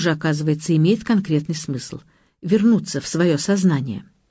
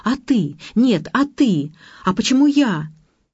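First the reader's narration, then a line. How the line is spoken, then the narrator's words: Shouting quarrel. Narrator (Russian): ссорились, кричали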